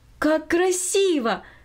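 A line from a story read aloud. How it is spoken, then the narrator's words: Exclaiming. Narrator (Russian): воскликнула Минори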